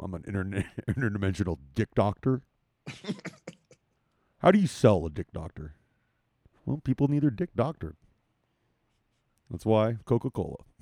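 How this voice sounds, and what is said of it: Imitates another person's voice. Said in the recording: “I can do John Hamm. That's my impression right now. I'm doing so.”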